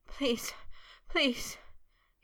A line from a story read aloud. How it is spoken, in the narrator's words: he panted in a chanting plea, shudders still jerking through him